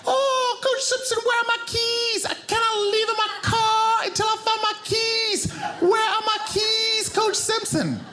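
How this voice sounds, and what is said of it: Impression of a Zambian woman's voice. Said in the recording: “I'm not implying that all women from the continent of Africa sound this way when they speak ... doing a perfect impression of one woman from Zambia ... exactly what I heard in my brain, which sounded like this ... Let me slow it down”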